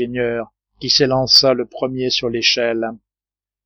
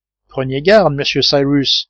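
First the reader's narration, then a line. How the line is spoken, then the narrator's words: Cried out. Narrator (French): s'écria Pencroff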